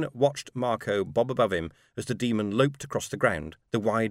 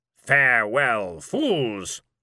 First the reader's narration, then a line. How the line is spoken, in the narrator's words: bellowed